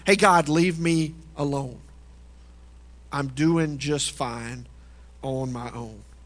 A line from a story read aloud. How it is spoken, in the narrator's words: cries out